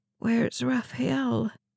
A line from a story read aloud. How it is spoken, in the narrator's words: Lacey croaked